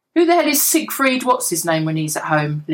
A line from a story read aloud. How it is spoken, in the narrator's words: Lillian snorted